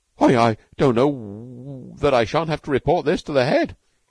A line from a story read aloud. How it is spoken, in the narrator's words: he stammered